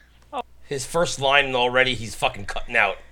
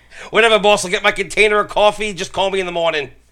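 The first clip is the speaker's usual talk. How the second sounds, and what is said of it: Put-on Philadelphia regular-guy accent. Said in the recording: “what is with these guys' fucking accents? ... What kind of accent is that? ... They're like Philly. They're like Philly regular Joes.”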